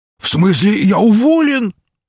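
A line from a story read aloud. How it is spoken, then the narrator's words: Shouted. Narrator (Russian): закричал он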